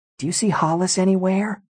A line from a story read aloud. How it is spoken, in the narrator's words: Lindsay whispered